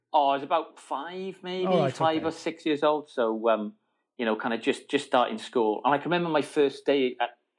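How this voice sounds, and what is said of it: Welsh accent. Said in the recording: “I have no recollection of losing my English accent, but somehow or other it happened. And then I got a Welsh one”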